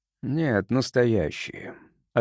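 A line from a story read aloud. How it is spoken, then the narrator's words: Tired voice. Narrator (Russian): отозвался Рокхард усталым голосом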